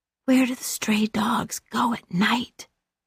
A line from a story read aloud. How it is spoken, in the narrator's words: he whispered, his breath hot in her ear